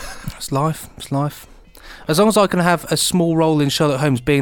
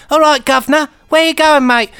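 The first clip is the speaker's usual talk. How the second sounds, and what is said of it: Terrible put-on Victorian cockney accent. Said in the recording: “with a really terrible Victorian accent”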